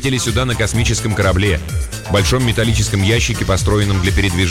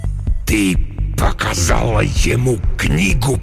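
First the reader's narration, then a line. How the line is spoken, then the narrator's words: Hissed. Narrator (Russian): прошипел Декарнатус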